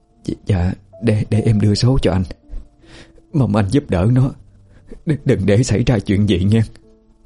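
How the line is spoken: Trembling voice. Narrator (Vietnamese): Giọng bà run rẩy

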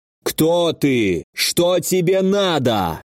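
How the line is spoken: Menacing thundering voice. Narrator (Russian): Грозный голос Альго прогремел в пространстве

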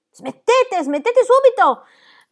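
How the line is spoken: Governess shouting over music. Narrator (Italian): gridò la governante

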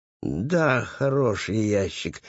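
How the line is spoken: Uncertain mutter. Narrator (Russian): неуверенно пробормотал Пэтсон

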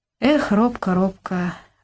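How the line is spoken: Sad, regretful sigh. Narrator (Russian): вздохнул Сергей Андреевич с сожалением и грустью

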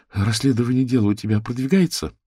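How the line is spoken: Timid question. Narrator (Russian): робко спросила Вера

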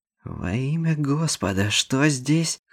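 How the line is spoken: Hoarse. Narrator (Russian): хрипло начал Лютер

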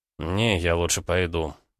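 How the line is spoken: Gruff mutter. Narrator (Russian): буркнул Слановски

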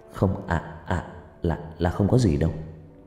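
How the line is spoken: Stammered. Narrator (Vietnamese): Cậu lắp bắp

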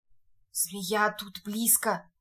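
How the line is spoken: Whisper. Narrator (Russian): шепнул один из негров

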